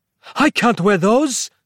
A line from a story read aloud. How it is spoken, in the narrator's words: cried Capello